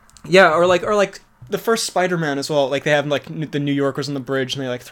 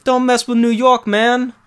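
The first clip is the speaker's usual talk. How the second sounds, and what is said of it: Put-on New York accent. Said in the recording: “That's very good New York. ... It's a terrible New York accent.”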